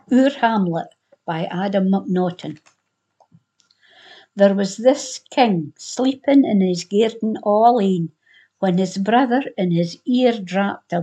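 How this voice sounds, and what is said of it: Central Scottish accent. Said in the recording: “I do not have a Glasgow accent. I come from central Scotland. I come from halfway between Glasgow and Edinburgh.”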